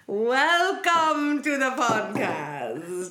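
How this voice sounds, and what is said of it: Put-on Dracula accent. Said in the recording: “I like your fun accent this week. Are you going to keep that going the entire time? ... It's my Dracula accent. ... Oh, I love a good Dracula accent.”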